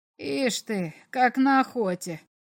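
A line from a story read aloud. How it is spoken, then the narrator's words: Muttering. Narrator (Russian): пробормотал комиссар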